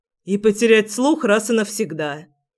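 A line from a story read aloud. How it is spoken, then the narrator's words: Snapping back. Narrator (Russian): огрызнулся Генрих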